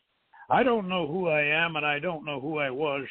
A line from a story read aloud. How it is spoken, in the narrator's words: she cried